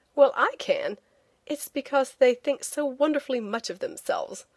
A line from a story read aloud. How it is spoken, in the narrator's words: I said with a laugh